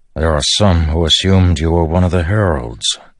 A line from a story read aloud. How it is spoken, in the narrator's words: Dalinar noted to the Stormfather